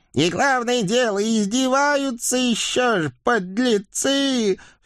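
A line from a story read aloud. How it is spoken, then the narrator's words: Exasperated old witch's wail. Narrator (Russian): В сердцах взвыла старая ведьма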